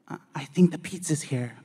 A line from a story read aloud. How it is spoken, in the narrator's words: Bianca whispered